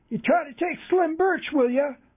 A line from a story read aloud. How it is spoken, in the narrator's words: someone shouted from the shattered cabin door